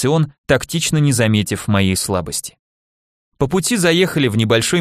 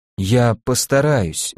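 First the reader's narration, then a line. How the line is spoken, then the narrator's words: Choked tearful forcing. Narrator (Russian): выдавил я из себя, спрятав слезу в ладони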